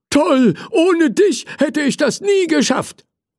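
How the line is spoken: Grateful firefighter calling. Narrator (German): rief der Feuerwehrmann dankbar

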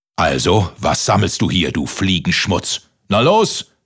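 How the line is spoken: Giant roaring from above. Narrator (German): brüllte der Riese von oben

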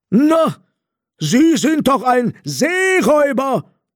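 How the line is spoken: Blind robber shouting. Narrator (German): schrie der blinde Räuber

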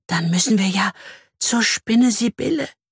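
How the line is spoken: Fearful whisper. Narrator (German): flüstert sie ängstlich

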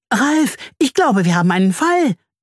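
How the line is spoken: Excited humming. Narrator (German): summt sie aufgeregt

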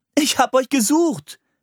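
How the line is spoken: Calling out. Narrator (German): rief

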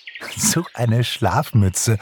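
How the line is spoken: Giggling. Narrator (German): kicherte Pixie

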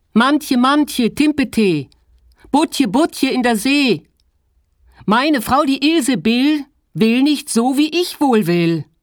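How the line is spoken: Calling out. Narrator (German): rief er

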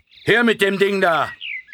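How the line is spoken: Gruff voice calling. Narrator (German): eine barsche Stimme rief

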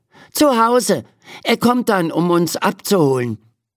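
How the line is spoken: Called out. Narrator (German): ruft Ferdi

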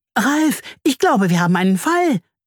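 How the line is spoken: Excited humming. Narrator (German): summt sie aufgeregt

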